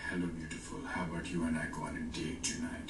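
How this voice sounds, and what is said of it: Put-on seductive accent, creepy. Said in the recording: “if I do it with a seductive accent ... I sound like a serial killer”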